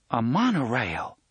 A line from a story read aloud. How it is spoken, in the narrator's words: Susanna exclaimed